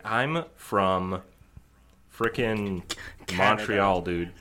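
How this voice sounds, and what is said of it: Bad, overly slow Canadian accent. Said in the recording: “That was the worst Canadian accent I've ever heard in my life ... It sounded like a southerner trying to do a northerner accent. So like it was way too slow.”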